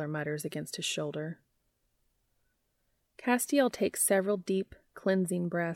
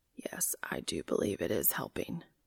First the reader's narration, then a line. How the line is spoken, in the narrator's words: he whispers